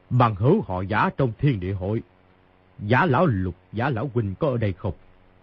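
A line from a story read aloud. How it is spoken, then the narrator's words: Raised voice. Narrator (Vietnamese): cao giọng nói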